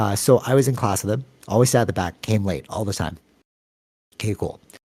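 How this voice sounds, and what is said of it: Usual voice. Nothing is said of it.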